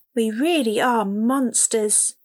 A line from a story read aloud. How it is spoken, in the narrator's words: said sadly